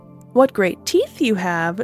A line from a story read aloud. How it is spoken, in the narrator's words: she said merrily